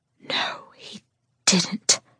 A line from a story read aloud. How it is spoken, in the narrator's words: I whisper, not knowing if I'm mortified or just plain shocked